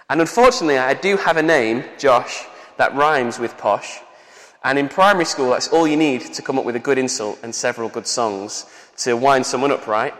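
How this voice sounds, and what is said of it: Northern English accent. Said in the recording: “people in London who hear my accent and hear my northern tones”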